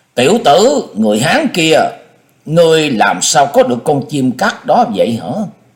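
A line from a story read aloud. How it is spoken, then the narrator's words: Loud admiring voice. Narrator (Vietnamese): lòng tràn đầy hâm mộ, lớn tiếng nói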